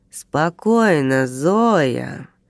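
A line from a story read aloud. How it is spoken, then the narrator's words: Nasal lazy drawl. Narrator (Russian): сказал он гнусавым голосом, лениво растягивая слова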